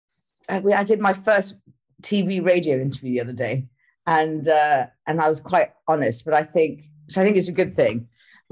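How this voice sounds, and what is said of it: Posh-sounding accent. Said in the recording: “I sound kind of posh ... this accent”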